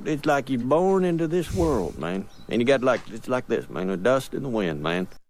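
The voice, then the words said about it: West Virginian accent. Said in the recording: “That's a West Virginian accent if I've ever heard it.”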